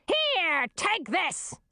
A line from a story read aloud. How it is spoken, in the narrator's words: screamed the queen